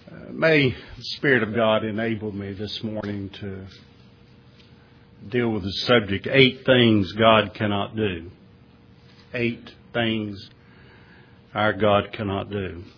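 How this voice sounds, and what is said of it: Strong Southern American accent. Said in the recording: “I see you got that strong southern accent again”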